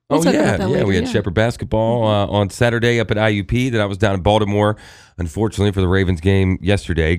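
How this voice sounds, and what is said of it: Hoarse, strained voice. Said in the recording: “I sound so crappy because I was screaming and yelling all day. So I'm losing my voice.”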